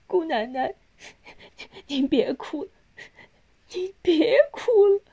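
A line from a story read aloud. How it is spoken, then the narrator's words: Sobbing, consoling. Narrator (Chinese): 旁边搀扶他的学会也忍不住跟着哭，边哭边劝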